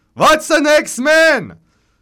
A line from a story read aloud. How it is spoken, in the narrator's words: Stieglitz shouts